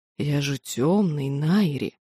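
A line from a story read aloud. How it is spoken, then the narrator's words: Heartfelt whisper. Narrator (Russian): проникновенно прошептал лорд Элохар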